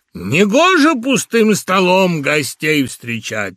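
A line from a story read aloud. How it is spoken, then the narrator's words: Barking. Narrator (Russian): рявкнул Геха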